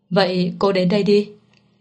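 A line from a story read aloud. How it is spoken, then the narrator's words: Cold faint laugh. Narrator (Vietnamese): Mạnh Tư Thành chợt cười nhạt nói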